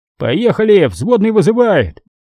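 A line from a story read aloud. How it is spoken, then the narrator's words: Shouted. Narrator (Russian): водила и крикнул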